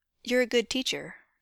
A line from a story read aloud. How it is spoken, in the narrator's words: Finn says calmly